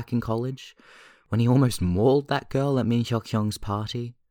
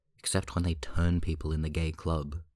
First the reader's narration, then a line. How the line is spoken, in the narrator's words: Jisung mutters morosely under his nose